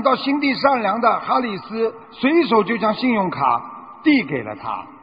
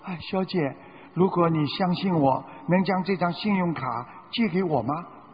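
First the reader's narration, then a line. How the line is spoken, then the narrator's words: Quiet voice. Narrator (Chinese): 瓦伦丁小声地说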